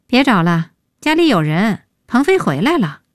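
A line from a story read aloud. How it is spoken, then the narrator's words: Sighing. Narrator (Chinese): 叹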